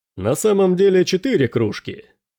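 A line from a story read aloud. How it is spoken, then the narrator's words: Cheerful, smiling. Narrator (Russian): сказал Дрейк, весело улыбаясь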